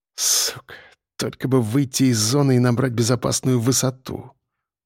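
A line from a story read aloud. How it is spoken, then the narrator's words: Through gritted teeth. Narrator (Russian): процедил Миха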